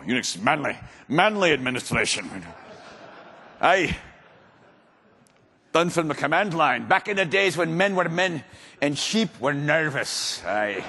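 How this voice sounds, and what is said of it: Put-on Scottish accent. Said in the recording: “I did a Scottish accent.”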